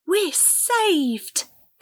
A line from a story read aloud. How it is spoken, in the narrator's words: Cassie exclaimed